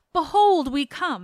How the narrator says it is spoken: Opheltes, first of my companions, cried

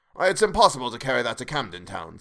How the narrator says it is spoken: said Scrooge

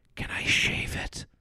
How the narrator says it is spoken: whispers

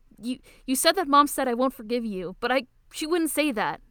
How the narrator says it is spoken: Toru shouts, crying

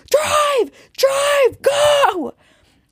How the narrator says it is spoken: we just piled in screaming

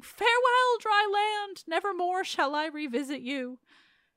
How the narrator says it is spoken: said with shouting

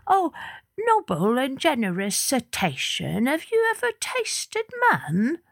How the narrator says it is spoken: the small, stute fish said in a small, stute voice

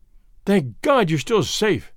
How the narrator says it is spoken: I gasped

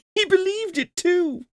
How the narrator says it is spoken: cried Scrooge's nephew

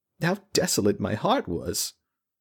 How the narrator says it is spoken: She sobbed softly

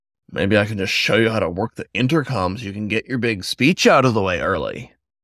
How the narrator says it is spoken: Rebuffed, Elijah snorted and said

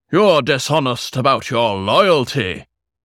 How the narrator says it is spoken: the king roared

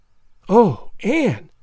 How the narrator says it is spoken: gasped Jane

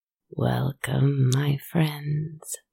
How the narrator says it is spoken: voice speak, raspy and deep and strangely joyful

